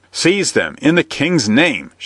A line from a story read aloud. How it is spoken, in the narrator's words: shrieked the sheriff